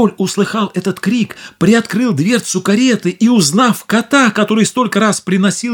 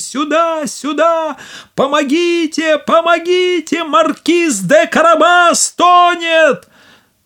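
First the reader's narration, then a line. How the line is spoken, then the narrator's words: Shouting at full strength. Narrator (Russian): Кот закричал, что было мочи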